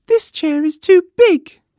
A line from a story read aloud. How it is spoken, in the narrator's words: she exclaimed